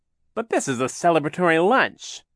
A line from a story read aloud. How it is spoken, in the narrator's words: Captain Sham exclaimed